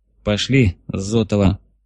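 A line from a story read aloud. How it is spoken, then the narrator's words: Through clenched teeth. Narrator (Russian): процедил сквозь зубы Иван Москвин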